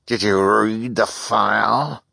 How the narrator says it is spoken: she demanded in a terrible voice

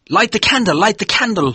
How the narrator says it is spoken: he shouted

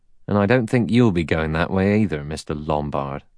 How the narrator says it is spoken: He added dryly

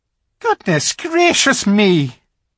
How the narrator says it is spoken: exclaimed the fawn

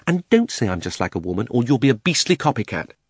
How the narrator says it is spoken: But she added hastily in her real voice

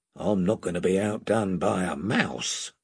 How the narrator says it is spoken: He added in a lower voice

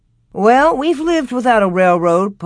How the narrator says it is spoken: Pa answered cheerfully

